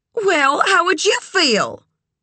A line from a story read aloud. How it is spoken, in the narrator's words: Sugar snapped